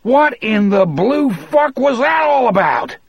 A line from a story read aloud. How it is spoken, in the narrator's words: Anderson roared